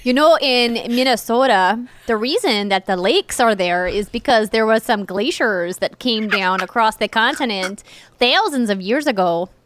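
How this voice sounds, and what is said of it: Exaggerated North Dakota/Minnesota accent. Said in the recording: “my North Dakota coming out ... are you all up in your nose when you do that accent?”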